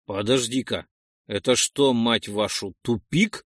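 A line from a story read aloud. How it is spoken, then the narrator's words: Exclaiming. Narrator (Russian): воскликнул Ролден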